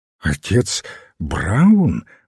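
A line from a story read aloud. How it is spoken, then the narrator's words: Exclaiming. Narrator (Russian): воскликнул репортер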